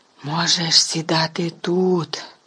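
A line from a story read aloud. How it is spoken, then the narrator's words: Whisper. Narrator (Ukrainian): прошепотів Стен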